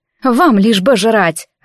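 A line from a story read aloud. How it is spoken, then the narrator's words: Irritated. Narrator (Russian): раздраженно бросила Анфиса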